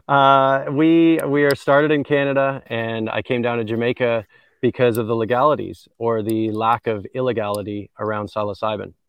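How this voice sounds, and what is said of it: Canadian accent. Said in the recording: “I'm a Canadian. You can probably tell from some of my twang.”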